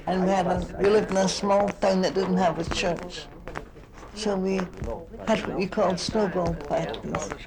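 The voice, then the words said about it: Scottish accent. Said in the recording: “I come from Scotland, as you'll know, by my accent.”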